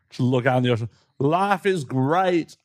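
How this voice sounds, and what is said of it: Put-on film character accent. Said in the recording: “I don't know why I got that accent. ... You went full forest. ... Full Forrest Gump.”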